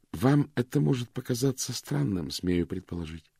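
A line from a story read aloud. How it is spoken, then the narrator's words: Calm. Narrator (Russian): с спокойно произнесла Клэр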